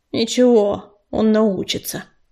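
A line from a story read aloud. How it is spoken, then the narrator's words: Grumbling. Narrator (Russian): буркнула она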